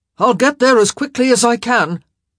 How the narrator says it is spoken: he yelled, trying to make himself heard over the wind

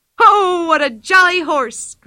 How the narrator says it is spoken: cried Pippi

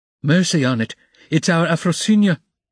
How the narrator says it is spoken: a woman cried tearfully close by

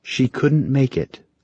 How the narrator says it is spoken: Kai said softly

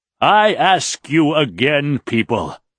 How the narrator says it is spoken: Raythan bellowed

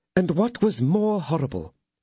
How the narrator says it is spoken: continued the lady, her voice trembling as if she yet felt the anguish of that terrible moment

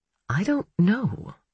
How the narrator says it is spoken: he admitted quietly

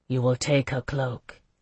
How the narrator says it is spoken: said softly

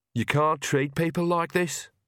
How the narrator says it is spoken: said Agnes sullenly

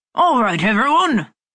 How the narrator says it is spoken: Clemens bellowed from the doorway

